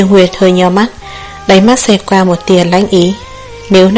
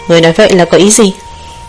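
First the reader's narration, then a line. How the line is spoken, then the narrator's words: Dazed, puzzled. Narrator (Vietnamese): Tần Lạc ngây ngẩn khó hiểu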